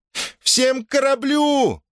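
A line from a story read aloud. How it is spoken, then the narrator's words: Princess shouting, echoing widely. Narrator (Russian): крикнула принцесса, отправляя свой голос широким веером по ущелью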